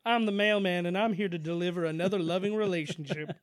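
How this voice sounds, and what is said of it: Imitates another person's voice. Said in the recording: “your Carl Malone impression”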